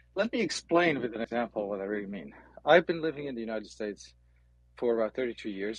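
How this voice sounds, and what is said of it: Slight Dutch accent. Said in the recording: “I was born in the Netherlands. That explains my little accent.”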